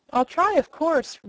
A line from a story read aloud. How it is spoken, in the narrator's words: replied the Wheeler eagerly